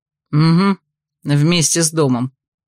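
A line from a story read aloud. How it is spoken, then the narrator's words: Grumbled. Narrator (Russian): пробурчал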